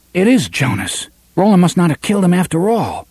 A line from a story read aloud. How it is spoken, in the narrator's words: Eddie whispered